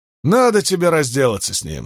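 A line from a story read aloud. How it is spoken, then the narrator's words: Plain. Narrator (Russian): сказал Джорджи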